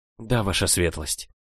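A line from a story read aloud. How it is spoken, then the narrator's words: Clear but quiet answer. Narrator (Russian): ответила четко, но тихо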